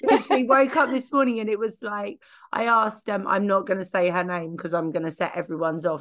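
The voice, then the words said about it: Croaky voice. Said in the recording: “I have had laryngitis, so my voice is a little bit on the croaky side”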